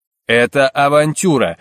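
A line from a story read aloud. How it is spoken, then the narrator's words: Growling. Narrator (Russian): рычал Расмус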